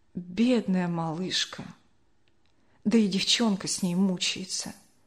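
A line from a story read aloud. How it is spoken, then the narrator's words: Quiet old woman lamenting. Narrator (Russian): бабушка Ксения тихо запричитала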